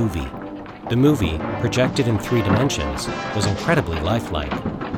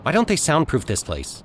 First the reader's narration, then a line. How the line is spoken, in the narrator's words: Jimmy asked irritably